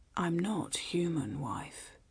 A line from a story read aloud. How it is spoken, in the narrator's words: he whispered into the darkness